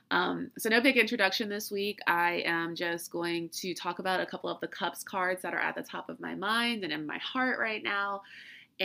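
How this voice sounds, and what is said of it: Sick-sounding voice. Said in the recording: “really severe allergies, or it could be a really bad head cold, or it could be the flu ... you can obviously hear it in my voice ... I'm trying to literally exert all of my energy into being upbeat”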